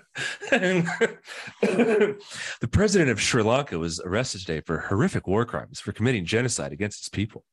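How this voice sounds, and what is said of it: Calm, whimsical radio-announcer voice. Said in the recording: “your NPR voice ... You just have to be calm and, you know, whimsical with a little bit of curiosity to it ... Understating something that's horrifying.”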